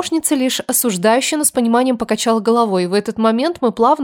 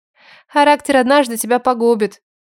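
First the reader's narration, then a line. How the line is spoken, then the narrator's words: Caring motherly sigh. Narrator (Russian): вздохнула Айра с материнской заботой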